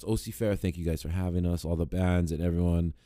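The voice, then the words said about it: Damaged, strained voice. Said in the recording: “my voice is all fucked up”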